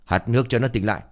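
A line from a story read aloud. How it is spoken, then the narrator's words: Harsh loud shout. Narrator (Vietnamese): Lão Chánh chẳng những không động lòng thương còn quát lớn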